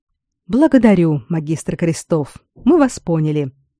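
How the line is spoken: Calm. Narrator (Russian): спокойно кивнул Костельмара

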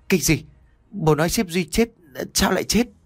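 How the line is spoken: Trembling stammer. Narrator (Vietnamese): Chân tay của Trinh lúc này run rẩy, miệng của Trinh ấp úng nói

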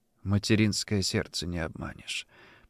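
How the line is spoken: Whispered. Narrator (Russian): прошептала она

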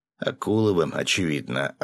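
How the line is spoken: Irritated mutter. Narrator (Russian): раздраженно буркнул прораб

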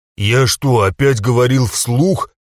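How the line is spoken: Hoarse voice. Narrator (Russian): осипшим голосом произнес

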